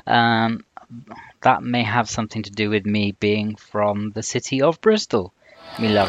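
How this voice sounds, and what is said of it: Bristolian English accent. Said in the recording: “I have a Bristolian accent”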